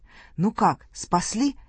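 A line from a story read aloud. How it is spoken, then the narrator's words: Soldiers speaking joyfully. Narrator (Russian): наши солдаты радостно говорят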